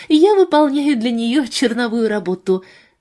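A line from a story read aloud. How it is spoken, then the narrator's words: Mock sigh. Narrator (Russian): Джулия притворно вздохнула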